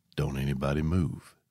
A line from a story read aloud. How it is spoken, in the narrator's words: Gary whispered